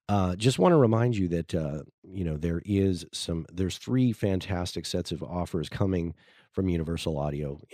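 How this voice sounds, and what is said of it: Slightly scratchy voice. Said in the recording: “my voice is a little scratchy there”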